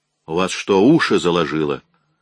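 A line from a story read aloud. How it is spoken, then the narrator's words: Spiteful snap. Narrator (Russian): злобно бросила Шила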